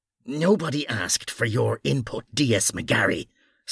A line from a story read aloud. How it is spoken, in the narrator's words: snarled Mara